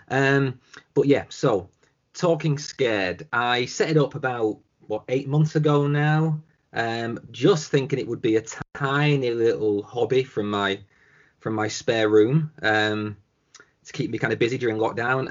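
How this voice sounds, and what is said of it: Thick English accent. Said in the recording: “I've got a really bad cough and a really, really thick English accent.”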